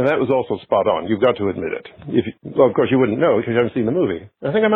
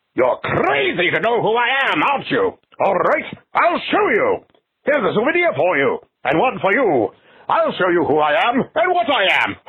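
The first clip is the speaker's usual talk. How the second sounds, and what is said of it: Imitates a movie character's voice. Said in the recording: “my impression of the Invisible Man”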